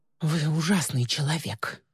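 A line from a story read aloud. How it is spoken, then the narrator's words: Through teeth, holding back tears. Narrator (Russian): процедила Ли, с трудом сдерживая слезы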